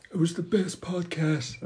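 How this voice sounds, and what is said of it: Donald Trump impression. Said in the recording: “That was my Trump impression.”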